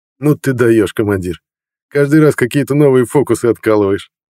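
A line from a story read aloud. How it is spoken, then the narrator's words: Snort. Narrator (Russian): хмыкнул Мбио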